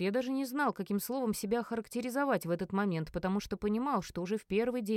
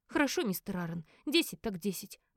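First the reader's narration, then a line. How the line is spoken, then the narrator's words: Sigh. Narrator (Russian): вздохнул Элис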